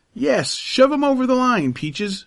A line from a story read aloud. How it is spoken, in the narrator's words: cried